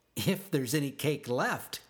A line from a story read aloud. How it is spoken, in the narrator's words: Katie Did laughed